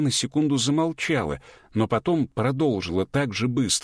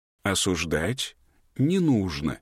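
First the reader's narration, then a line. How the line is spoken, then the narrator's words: Calm teacher's voice. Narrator (Russian): спокойно сказал учитель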